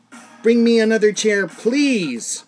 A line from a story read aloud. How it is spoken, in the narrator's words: Cheryl yells back